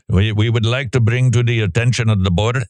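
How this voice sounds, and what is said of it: Put-on Iraqi accent. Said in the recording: “this is my Iraqi accent.”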